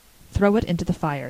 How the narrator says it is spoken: said Anne

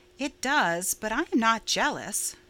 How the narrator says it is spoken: said Stella calmly

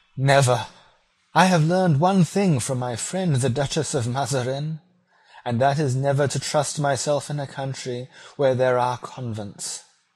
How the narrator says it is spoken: she cried

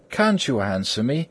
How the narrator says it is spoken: said Wild Eve warmly

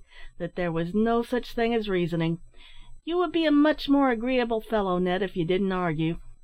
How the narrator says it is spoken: sighed Tom Collins, smoking languidly

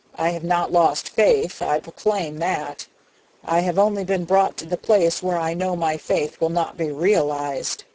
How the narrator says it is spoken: he declared hoarsely

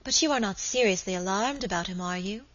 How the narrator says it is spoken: asked my lady anxiously

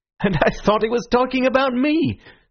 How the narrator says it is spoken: said Syme, with his rather reckless laughter

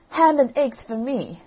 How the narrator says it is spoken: exclaimed Jack

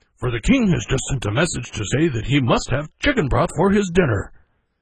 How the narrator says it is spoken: he exclaimed

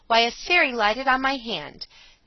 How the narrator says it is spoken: as a child, she cried

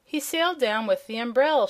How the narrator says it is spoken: cried

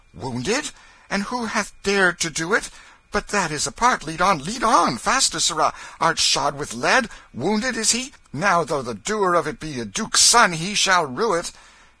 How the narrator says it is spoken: The king's manner changed at once, and he cried out

